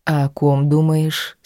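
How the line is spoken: Calm question. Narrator (Russian): спокойно поинтересовался

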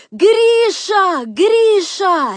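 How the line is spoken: Desperate scream. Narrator (Russian): отчаянным воплем закричала она

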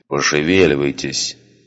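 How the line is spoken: Grumbled. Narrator (Russian): пробурчал

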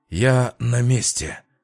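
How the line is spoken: Suddenly hoarse voice. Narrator (Russian): враз охрипшим голосом произнес в динамик Фил

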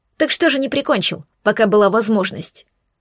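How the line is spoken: Insolent snap. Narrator (Russian): Огрызнулась дерзко

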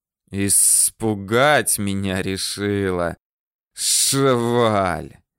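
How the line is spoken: Hissing. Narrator (Russian): зашипел

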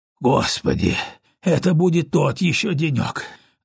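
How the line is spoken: Exhaled sigh. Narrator (Russian): выдохнул он, поднимаясь

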